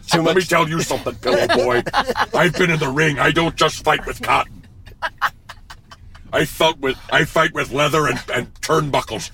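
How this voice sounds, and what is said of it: Jesse Ventura impression. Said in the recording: “do a Jesse Ventura impression”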